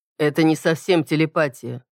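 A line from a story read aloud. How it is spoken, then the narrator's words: Dry reply. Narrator (Russian): сухо ответил Кроу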